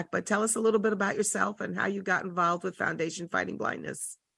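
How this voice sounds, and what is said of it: Weak, recovering voice. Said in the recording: “Excuse my voice. It's trying to come back”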